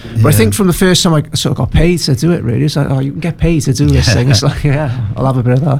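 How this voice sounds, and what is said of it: Strong Newport Welsh accent. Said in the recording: “the Newport accent is so good for music ... it's an underrated accent ... I've got a very strong Newport accent”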